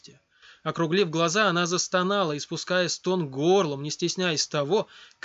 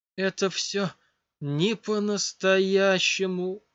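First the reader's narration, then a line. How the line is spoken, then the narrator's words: Moaned. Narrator (Russian): простонала она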